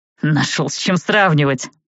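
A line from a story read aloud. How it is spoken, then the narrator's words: Snorting. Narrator (Russian): фыркнул Джад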